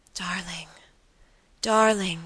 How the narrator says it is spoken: she murmured

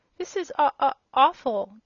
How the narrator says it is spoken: gasped the little one

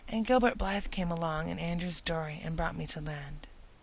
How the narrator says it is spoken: explained Anne wearily

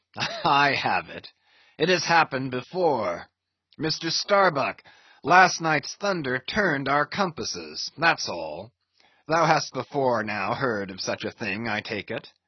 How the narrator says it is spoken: the old man, with a rigid laugh, exclaimed

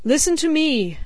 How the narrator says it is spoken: cried

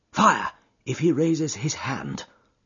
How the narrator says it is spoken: said Holmes quietly

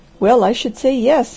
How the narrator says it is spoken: he laughed

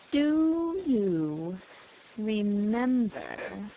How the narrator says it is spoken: He spoke slowly and with an effort

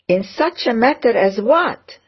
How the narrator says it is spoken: said Eleanor very testily

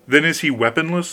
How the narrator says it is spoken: said the king

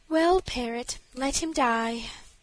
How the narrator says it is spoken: answered the princess with a sigh

